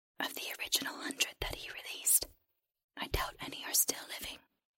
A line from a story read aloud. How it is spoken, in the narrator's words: the creature whispered